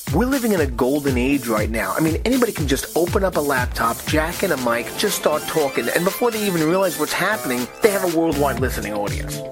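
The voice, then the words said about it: Fast-talking New York accent. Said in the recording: “I talk fast, I have a New York accent”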